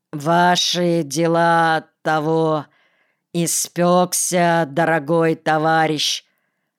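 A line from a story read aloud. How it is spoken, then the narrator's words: Bored, flat voice. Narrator (Russian): добавил скучным голосом, без всякой рифмы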